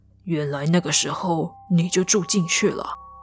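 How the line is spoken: Muttering to self. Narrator (Chinese): C 则是喃喃自语的说

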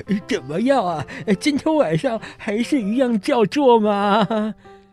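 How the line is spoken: Cheeky joking question. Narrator (Chinese): 国王…嬉皮笑脸地问公爵

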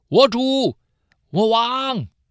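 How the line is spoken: Calling out. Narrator (Chinese): 呼叫扫罗说

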